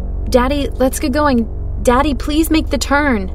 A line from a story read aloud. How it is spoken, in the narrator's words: choked out